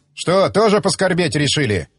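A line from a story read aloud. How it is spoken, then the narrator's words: Barked from behind. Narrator (Russian): рявкнула за спины Рафинье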